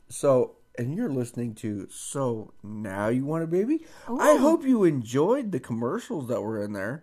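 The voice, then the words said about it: Polished radio announcer voice. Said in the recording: “Wow. Listen to your radio voice... Why don't you speak like this all the time? It's so much more enjoyable... it's beautiful”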